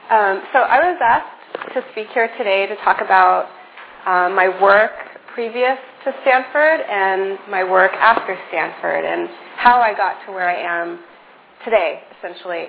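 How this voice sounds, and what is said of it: Voice with a cold, sore throat. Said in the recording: “I have a little bit of a cold, so I'm going to try to project, but my throat's a little sore.”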